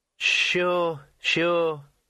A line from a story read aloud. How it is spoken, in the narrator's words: said the weasel soothingly